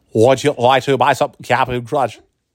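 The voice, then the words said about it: Imitates a talking toy's voice. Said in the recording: “my speak and spell imitation”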